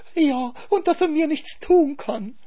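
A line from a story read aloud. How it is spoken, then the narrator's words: Wailing. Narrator (German): jammerte der Hase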